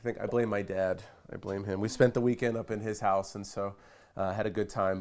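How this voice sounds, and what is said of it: Slightly raspy voice. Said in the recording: “excuse my voice. I've come down with a cold, so my voice is just a little bit raspy”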